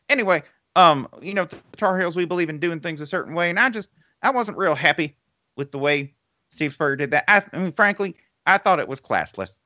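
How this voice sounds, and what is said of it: Imitates another person's voice, Texas-tinged accent. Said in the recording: “Give me Mack Brown saying Steve Spurrier is classless ... my accent's slightly different because I picked up a Texas accent once I got to Texas”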